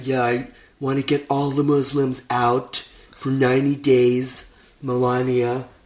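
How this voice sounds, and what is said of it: Imitates another person's voice. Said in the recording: “quite a good Trump impression you've got.”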